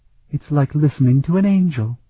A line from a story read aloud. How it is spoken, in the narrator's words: murmured